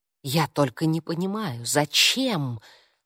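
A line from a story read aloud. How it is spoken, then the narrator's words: Confused whisper. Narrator (Russian): растерянно прошептала Анна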